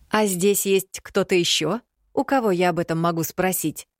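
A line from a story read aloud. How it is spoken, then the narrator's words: Snapping retort. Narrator (Russian): огрызнулась я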